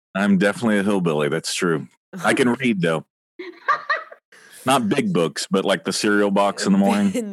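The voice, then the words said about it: Southern drawl accent. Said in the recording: “You have quite the accent. I enjoy your draw.”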